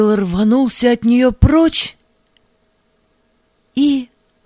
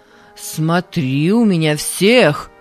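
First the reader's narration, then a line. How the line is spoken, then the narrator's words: Stern instructing. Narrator (Russian): строго наказывал Паисий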